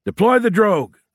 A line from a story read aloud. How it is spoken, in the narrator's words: shouted the crew chief